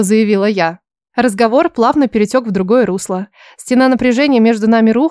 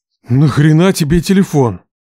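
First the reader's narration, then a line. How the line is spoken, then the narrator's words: Barked in unison. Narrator (Russian): Так же дружно рявкнули они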